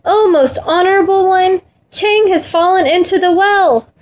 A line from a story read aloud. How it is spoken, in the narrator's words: raised his voice and cried